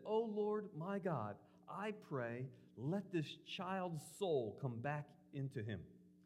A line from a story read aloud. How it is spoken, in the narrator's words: cried out to the Lord and said